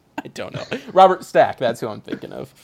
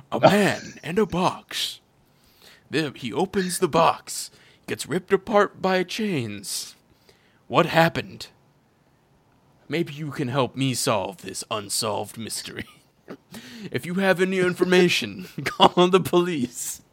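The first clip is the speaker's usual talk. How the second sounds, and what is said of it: Imitates a TV mystery show narrator. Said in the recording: “Is that your Pinhead impression? ... No, I'm trying to do, what's his name, from Unsolved Mysteries.”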